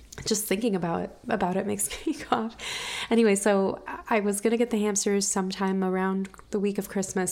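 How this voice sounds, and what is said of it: Voice still affected by a cold. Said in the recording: “I ended up getting this like horrible cold over Christmas ... I think you can still hear it in my voice.”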